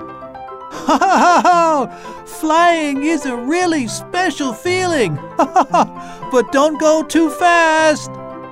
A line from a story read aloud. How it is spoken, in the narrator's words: Laughing, said